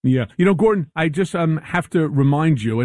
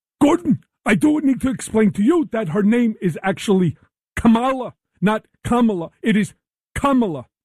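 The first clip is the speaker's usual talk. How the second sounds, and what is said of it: Imitates another person's voice. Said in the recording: “I'm going to do it in my Bernie Sanders voice.”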